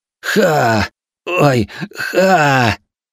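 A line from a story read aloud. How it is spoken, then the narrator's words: Pained laughter. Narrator (Russian): рассмеялся, схватившись от боли за живот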